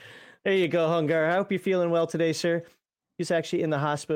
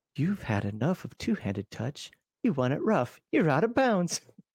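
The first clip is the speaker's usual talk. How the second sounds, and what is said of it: Sultry, seductive voice. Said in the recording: “He loves my sexy voice.”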